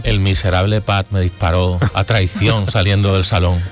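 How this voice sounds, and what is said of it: Deep sepulchral voice from beyond the grave. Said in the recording (Spanish): “esa voz de ultratumba”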